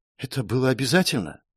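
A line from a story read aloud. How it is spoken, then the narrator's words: Young woman's whispered question. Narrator (Russian): шепотом спросила девушка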